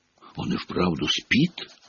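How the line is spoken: Whispering. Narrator (Russian): шепотом сказал он

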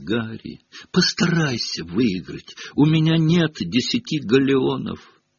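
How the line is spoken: Pleading whisper. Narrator (Russian): Перси чуть не взмолился шепотом

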